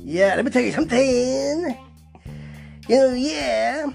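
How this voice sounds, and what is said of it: Weak impression of doing Dusty. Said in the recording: “doing Dusty. Not really a very good impression”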